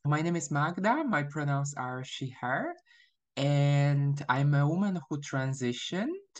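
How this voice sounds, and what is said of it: Non-American foreign accent. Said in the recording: “after hearing my accent, you would guess I'm not from the US”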